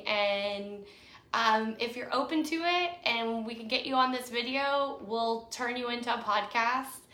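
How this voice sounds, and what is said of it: Raspy voice. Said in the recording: “My voice isn't typically this raspy. It got this way. ... She means sexy. ... it's normally very high pitched”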